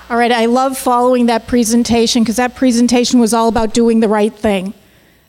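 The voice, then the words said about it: Boston accent. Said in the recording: “apologize in advance for my accent. I grew up in Boston, and I've been in New York City for 4 years”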